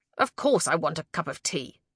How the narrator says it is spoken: snapped, from behind the crimson flowers of the vast rhododendron

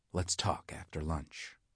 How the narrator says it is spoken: whispered

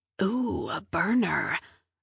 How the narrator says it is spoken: Milo whispered

